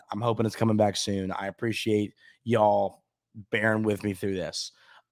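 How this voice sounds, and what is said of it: Hoarse, weak voice. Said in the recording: “my voice is still gone”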